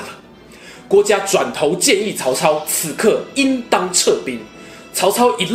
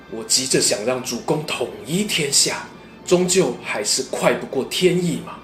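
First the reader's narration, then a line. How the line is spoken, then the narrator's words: Muttering to himself. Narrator (Chinese): 他喃喃自语说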